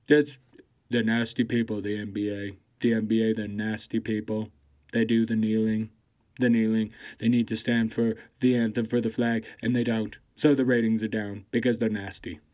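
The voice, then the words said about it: Bad imitation of another person's voice. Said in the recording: “my Trump impersonation is atrocious”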